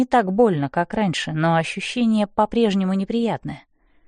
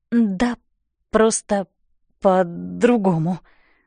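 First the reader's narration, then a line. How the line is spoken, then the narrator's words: Stammering. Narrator (Russian): заикаюсь я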